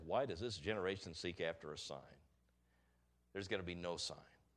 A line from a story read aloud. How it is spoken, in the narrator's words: He sighed deeply in his spirit and saith